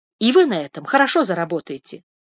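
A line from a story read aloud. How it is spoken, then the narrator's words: Plain. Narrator (Russian): сказала миссис Шелби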